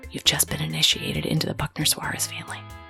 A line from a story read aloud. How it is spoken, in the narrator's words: whispered in his ear